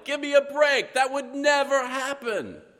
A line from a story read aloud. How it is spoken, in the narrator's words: he'd yell